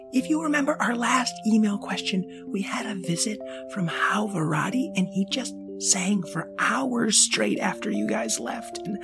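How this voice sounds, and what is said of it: Whispering. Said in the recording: “I'm whispering.”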